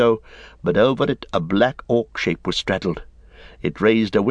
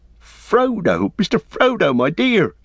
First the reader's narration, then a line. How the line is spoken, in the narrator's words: cried Sam, tears almost blinding him